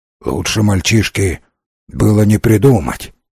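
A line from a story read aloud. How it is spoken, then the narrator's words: Grumbling. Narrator (Russian): пробурчал Уэстон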